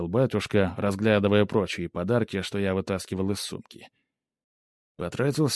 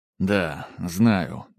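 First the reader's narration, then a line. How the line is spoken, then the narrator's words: Sighing. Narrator (Russian): вздохнул я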